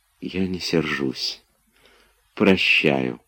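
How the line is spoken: Soft, gentle. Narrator (Russian): прибавила мягко

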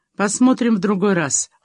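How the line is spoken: Said coldly. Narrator (Russian): холодно сказал он

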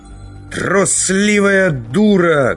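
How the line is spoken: Shout. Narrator (Russian): крикнул Завулон

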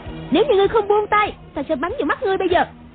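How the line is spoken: Shouting. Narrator (Vietnamese): Một Uyển Thanh quát lên

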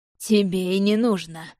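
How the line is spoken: Man's snort. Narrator (Russian): хмыкнул мужчина

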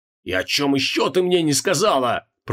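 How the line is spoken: Growled. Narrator (Russian): прорычал Креол

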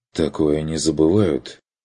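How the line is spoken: Grim agreement. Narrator (Russian): Согласился он мрачно

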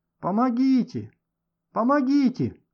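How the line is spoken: Man shouting. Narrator (Russian): кричал какой-то мужчина

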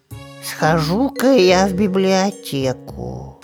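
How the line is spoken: Muttering to himself. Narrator (Russian): сам себе под нос пробурчал Шуршик

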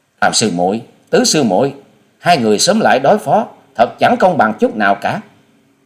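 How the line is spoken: Anxious, hurried shout. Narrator (Vietnamese): trong lòng của nàng lo lắng muôn phần, vội hét lên

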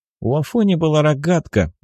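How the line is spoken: Joyful. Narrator (Russian): радостно произнес Семен

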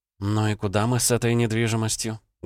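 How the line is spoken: Sad question. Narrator (Russian): грустно спросила Элли

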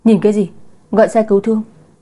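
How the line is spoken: Shouting. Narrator (Vietnamese): Chu Tử Vũ hét lên

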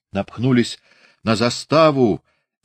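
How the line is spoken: Shouted from afar. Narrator (Russian): издали крикнул Прохор Зыков

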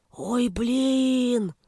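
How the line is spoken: Hoarse drawl, scribe. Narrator (Russian): хрипло протянул писец

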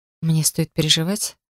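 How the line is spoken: Quiet, falsely cheerful. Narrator (Russian): Тихо уточнила я с фальшивой улыбкой

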